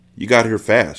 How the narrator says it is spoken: she said

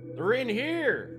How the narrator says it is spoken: Terry shouted to his wife

